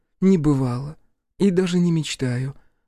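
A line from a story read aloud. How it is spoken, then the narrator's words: Sighing. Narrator (Russian): вздохнула Лейла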